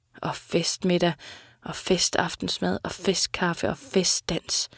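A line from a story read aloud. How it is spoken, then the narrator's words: Mumbling. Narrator (Danish): mumlede Sita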